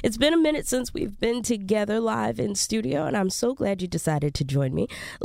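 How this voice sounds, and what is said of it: Scratchy voice from a cold. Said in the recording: “I know I sound a little weird ... I do have a cold ... I sound a little scratchy at times”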